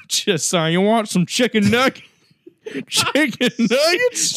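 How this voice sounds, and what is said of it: Put-on trashy Southern American accent. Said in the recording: “I like a good Southern accent. I like it's like a nice fucking trashy fucking dumpster bitch ... That's the fucking voice”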